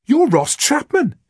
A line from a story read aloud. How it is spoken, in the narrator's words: she exclaimed